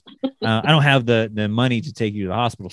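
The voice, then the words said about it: Put-on hillbilly accent. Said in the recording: “my mom has a hillbilly accent. She doesn't, but in this story she does.”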